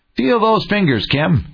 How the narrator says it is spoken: he exclaimed

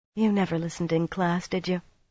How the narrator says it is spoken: Elaine murmured

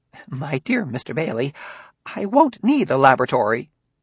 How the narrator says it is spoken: Garrigell tittered nervously and said

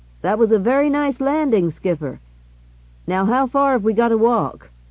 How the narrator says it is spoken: called out to the pilot

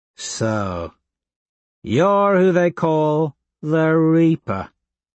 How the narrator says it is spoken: Tactus drawls

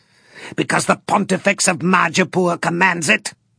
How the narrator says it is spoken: Torquemenod laughed harshly

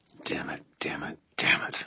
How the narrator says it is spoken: I muttered

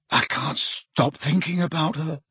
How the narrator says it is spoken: said Ron hoarsely

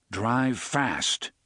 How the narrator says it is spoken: the gunslinger commanded grimly

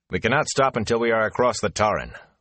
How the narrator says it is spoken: Lan said sharply

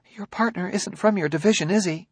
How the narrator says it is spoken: she said, shakily

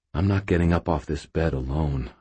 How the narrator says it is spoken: I said quietly

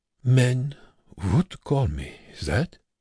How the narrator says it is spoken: Wernicke said calmly

